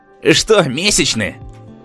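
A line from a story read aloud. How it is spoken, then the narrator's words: Snide question. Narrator (Russian): ехидно спросил Стас Куценко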